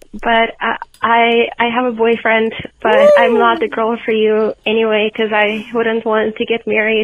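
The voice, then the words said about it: High-pitched baby voice. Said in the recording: “my baby voice ... so I could send her baby voice”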